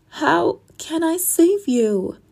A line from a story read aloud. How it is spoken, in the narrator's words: Astrid sobbed